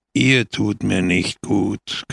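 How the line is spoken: Growling. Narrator (German): knurrte Pepone

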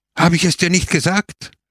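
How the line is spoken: Shouting. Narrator (German): schrie er

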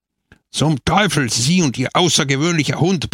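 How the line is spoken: Roaring. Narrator (German): brüllte er

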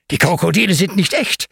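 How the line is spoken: Excited explanation. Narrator (German): erklärt Ben aufgeregt

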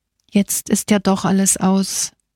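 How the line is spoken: Groan. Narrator (German): stöhnte Angelo

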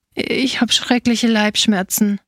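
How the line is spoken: Sighing in pain. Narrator (German): seufzte der kleine Feigendieb

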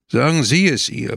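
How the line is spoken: Harsh commanding voice. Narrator (German): befahl mit harter Stimme

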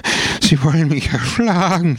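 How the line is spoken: Sobbing. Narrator (German): schluchzte

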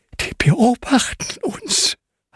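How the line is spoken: Breathy whisper. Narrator (German): haucht Hanna

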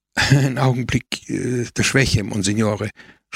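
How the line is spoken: Stammering. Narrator (German): stotterte Don Camillo

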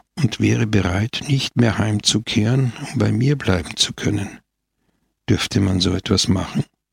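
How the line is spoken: Soft. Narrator (German): fuhr Scamoggia leise fort

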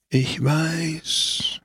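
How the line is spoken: Breathy old man's whisper. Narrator (German): hauchte der Alte

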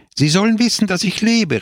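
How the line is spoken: Exclaiming. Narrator (German): rief er aus

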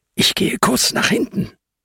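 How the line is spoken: Whispering. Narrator (German): flüstert Ben den anderen zu

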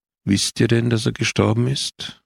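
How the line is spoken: Urgent and weary. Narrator (German): hob der Mann wieder an, dringlich und müde zugleich

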